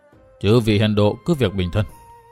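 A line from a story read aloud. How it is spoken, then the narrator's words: Weak soft voice. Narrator (Vietnamese): Lão, giọng nói nhỏ nhẹ như củ đổ nho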